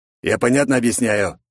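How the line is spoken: Angry growl, raven. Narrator (Russian): злобно прорычал ворон

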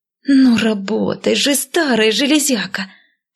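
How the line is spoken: Hiss. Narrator (Russian): прошипела я

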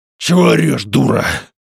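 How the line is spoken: Hoarse displeased rasp. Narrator (Russian): прохрипел мужик, сверкая на нее недовольным взглядом

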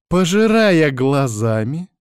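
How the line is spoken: Menacing question. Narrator (Russian): грозно переспрашивает Наташка

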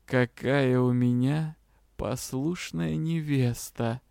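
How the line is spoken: Pleased whisper. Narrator (Russian): прошептал довольный полученными ответами магистр темного искусства

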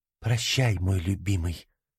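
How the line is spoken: Whisper. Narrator (Russian): прошептала она

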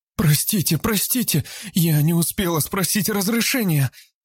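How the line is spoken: Frightened wailing. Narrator (Russian): Испуганно запричитала Габриэла

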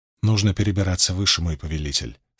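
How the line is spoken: Plain. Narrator (Russian): сказал шаман

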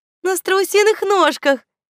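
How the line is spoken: Giggle. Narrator (Russian): хихикнула Светка

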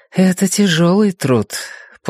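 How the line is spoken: Soft, gentle. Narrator (Russian): Джен Чэнь сказала мягко

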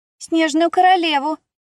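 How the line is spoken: Loud shout across class. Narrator (Russian): тотчас выкрикнула на весь класс Мелисса

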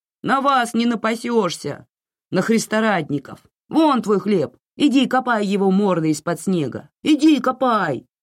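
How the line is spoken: Shouting. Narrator (Russian): закричал

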